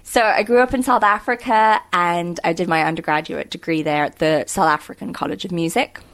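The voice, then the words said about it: Mixed, mostly British accent. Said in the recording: “accent is thoroughly confused, but, you know, very often it's British”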